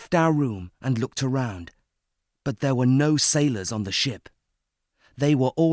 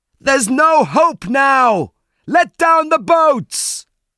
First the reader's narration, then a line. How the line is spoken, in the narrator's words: We heard someone shout